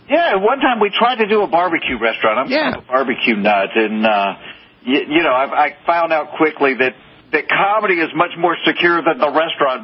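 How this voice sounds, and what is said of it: Southern US accent. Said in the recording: “I'm not faking this accent. I am from the South.”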